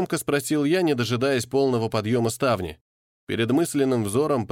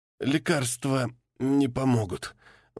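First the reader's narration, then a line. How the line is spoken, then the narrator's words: Strained, forced out. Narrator (Russian): выдавил сиделец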